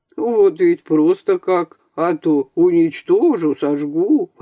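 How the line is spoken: Grumbling. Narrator (Russian): ворчал Куинджи

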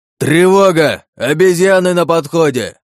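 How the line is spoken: Roar from below. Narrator (Russian): взревел босс откуда-то снизу

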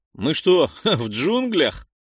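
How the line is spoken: Surprised, chuckling. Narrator (Russian): удивился один из пленных и хохотнул

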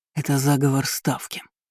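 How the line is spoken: Hoarse declaration. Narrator (Russian): хрипло заявил он

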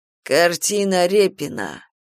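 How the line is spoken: Purring. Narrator (Russian): промурлыкал Марк

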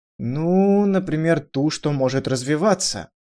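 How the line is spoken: Slightly embarrassed young man. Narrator (Russian): немного смущенным тоном, ответил юноша

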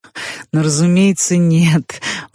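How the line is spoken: Laughing. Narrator (Russian): он засмеялся

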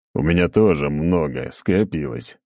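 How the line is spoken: Chuckling. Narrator (Russian): хохотнул

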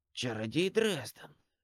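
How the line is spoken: Corpse's hoarse whisper. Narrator (Russian): произнес труп хрипловатым шепотом

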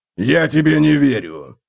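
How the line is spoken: Growled. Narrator (Russian): прорычал Готрек

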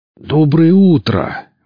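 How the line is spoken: Exclaimed. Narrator (Russian): воскликнул Велес, узнав голоса бандитов

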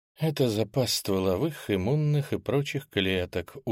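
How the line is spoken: Tired explanation. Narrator (Russian): устало хвостатая женщина пояснила

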